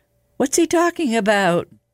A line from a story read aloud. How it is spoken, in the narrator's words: Margaret asked nervously